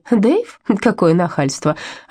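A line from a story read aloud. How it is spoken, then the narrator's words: Happy laughter. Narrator (Russian): счастливо рассмеялась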